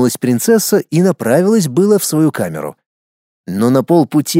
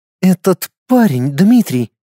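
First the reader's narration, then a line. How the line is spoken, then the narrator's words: Bewildered. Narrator (Russian): растерянно произнесла принцесса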